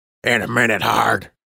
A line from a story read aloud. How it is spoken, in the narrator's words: Major Lucky growled